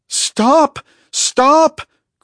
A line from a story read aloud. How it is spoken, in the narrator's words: cried Valen